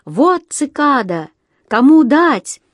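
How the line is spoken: Boy's sudden shout. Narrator (Russian): вдруг закричал мальчик

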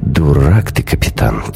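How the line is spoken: Quiet. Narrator (Russian): тихо говорю я

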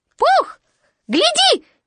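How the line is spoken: Sudden squeak. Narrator (Russian): неожиданно пискнул Пятачок

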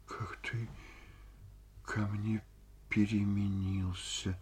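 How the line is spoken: Sighing. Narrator (Russian): вздохнула Ольга Ивановна

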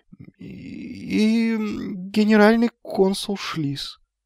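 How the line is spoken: Crestfallen voice. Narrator (Russian): упавшим голосом закончил Магнан

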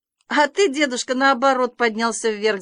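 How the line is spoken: Laughing. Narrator (Russian): засмеялся Санька

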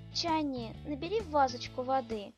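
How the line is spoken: Tender, smiling. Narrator (Russian): нежно улыбаясь, произносит

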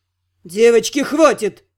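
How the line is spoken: Growling. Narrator (Russian): рыкнул

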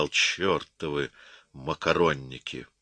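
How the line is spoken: Quiet and angry. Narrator (Russian): Потом тихо и со злостью сказал

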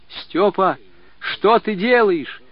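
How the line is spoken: Child's hurried shout. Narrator (Russian): Мальчик едва успел крикнуть

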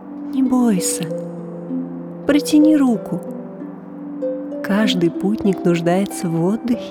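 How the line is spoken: Soft singing. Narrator (Russian): Он тихо напевал

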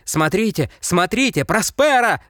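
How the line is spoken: Doctor shouting. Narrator (Russian): закричал доктор

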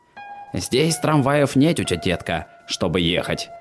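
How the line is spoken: Mumbling. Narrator (Russian): забормотал Рыло

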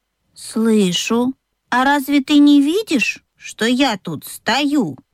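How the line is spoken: Calm objection. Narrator (Russian): спокойно возразил ослик

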